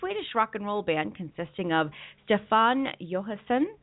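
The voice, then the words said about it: Attempted Swedish accent, not convincing. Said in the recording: “I'm trying to say it with a Swedish accent, and I'm just not doing very well.”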